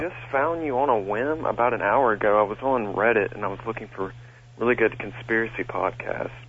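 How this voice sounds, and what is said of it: Southern US drawl. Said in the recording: “please excuse my southern drawl ... It's a lot worse on the phone.”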